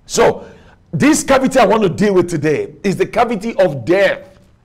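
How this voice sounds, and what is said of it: Nigerian English accent. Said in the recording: “I speak with my Nigerian accent.”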